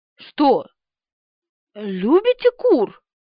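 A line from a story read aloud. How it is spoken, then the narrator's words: Strained forced words. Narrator (Russian): через силу выдавила она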